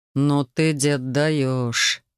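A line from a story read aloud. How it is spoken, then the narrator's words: Husband, exhaled words. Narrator (Russian): выдохнул мой дорогой супруг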